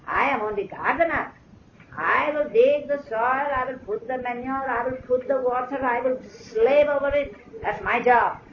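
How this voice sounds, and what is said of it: Irani Zoroastrian accent. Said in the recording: “He had a very Irani accent, Zoroastrian.”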